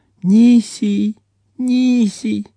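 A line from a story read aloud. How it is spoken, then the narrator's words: Sleepy babble. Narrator (Russian): сонно улыбнулась брату и пролепетала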